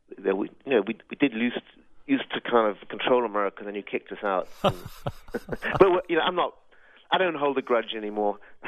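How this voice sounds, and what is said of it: Slight English accent. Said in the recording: “just a slight accent there. You're not from America, are you? ... born and bred in Brighton and Sussex”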